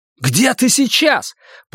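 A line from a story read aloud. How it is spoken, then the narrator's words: Shouted. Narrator (Russian): прокричал я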